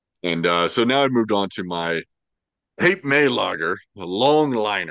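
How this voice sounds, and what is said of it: Usual voice. Nothing is said of it.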